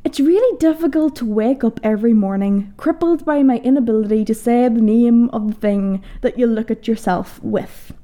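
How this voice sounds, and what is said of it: Northern Irish accent. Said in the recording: “this wild, culty northerner ... my accent being quite the seductive superpower”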